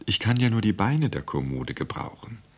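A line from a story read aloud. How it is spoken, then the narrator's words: Gentle whisper. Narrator (German): flüsterte sanft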